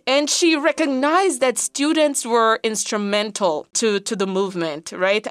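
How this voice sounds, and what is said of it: Patois-accented English. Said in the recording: “With my patois accent”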